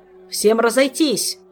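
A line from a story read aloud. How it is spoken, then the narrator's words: Bark. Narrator (Russian): рявкнул Шелар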